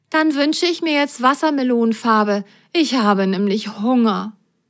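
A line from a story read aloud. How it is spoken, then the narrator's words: Plain. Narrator (German): sagte Rosenrot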